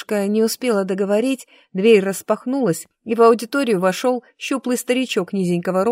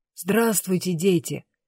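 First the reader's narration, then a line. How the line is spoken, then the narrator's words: Quiet voice. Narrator (Russian): тихим голосом проговорил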